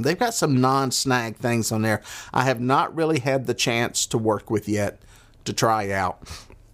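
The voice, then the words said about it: Southern American accent. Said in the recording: “I got my southern accent”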